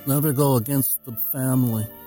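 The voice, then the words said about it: Marlon Brando Godfather impression. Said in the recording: “That's my my shot at Brando.”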